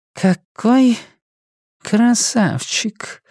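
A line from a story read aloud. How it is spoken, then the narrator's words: Thoughtful whisper. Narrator (Russian): задумчиво прошептала сестра Мэри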